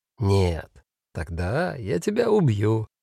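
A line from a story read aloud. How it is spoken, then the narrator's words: Said gently. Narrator (Russian): ласково сказал Фабиан Файх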